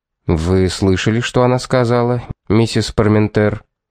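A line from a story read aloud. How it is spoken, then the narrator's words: Serious question. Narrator (Russian): спросил полицейский серьезным тоном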